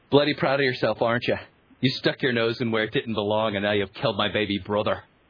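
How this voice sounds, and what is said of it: Bad put-on Irish accent. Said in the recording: “he's doing his Brad Pitt Irish accent ... my one of my other bad Irish accents”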